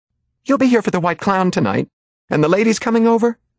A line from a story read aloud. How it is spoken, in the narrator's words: cried Mildred